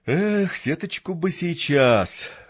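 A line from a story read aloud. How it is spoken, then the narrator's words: Sigh. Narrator (Russian): вздохнул Винт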